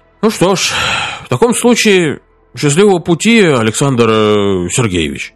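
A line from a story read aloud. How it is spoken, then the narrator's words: Sighing. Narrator (Russian): он только вздохнул и сказал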